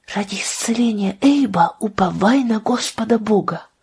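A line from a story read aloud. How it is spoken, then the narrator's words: Whisper. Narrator (Russian): шепнула она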